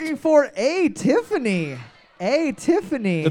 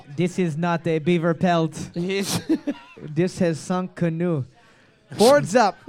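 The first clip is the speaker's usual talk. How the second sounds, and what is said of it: Put-on French accent. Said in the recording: “That's my best French accent.”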